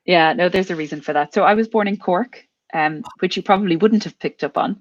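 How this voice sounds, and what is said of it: Irish with mid-Atlantic accent. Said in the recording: “I know you're Irish, but you've got this wonderful, wonderful, I want to say mid-Atlantic accent. I can't place it anywhere.”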